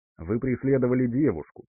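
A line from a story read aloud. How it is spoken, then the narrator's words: Calm statement. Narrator (Russian): также спокойно произнес Максим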